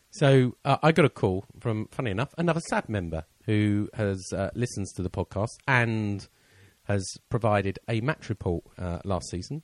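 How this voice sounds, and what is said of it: Hoarse, croaky voice. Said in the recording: “I've cleared my throat again. ... I've got a bit of a frog in my throat”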